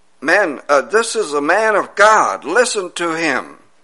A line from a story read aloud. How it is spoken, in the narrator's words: this young lady that was possessed with an evil spirit said and called out